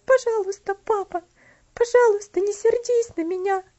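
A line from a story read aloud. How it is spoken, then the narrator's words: Sobbing child. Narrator (Russian): всхлипывала девочка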